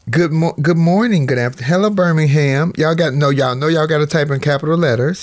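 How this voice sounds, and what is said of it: Unusually deep voice. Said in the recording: “My voice is doing something strange today. It's, it's quite deep.”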